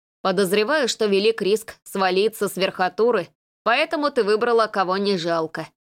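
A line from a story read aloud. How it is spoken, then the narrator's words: Smirking snort. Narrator (Russian): хмыкнул он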